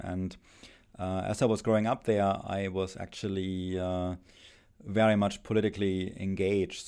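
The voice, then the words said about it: German accent. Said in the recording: “as you can probably tell from my accent, I spent my childhood and youth in Germany”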